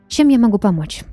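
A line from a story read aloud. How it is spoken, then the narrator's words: Slightly irritated question. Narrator (Russian): Немного раздраженно спросила Анна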